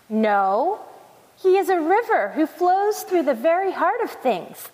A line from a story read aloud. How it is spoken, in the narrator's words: thundered the waterfall